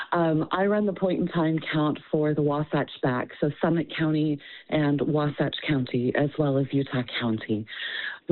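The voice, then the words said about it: Voice roughened by a cold. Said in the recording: “I apologize for my voice. I've got that seasonal bug.”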